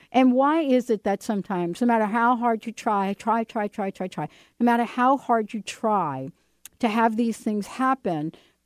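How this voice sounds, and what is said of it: Slight East Coast accent. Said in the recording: “my little East Coast accent going on. A little bit there.”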